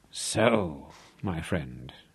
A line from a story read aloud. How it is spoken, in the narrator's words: Rolf whispered